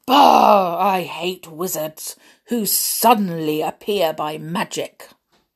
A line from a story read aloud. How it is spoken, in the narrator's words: Grumble had the nerve to say